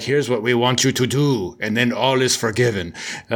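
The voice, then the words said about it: Bad put-on Russian accent. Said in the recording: “That's my horrible Russian accent.”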